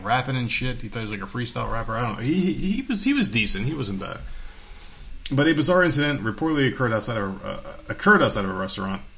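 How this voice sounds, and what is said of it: New Jersey accent. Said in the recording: “I'm fucking speaking Jersey tonight. ... My fucking Jersey accent came out.”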